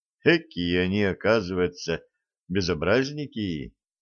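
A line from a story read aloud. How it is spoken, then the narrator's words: Anxious whisper. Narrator (Russian): прошептал Степан, с тревогой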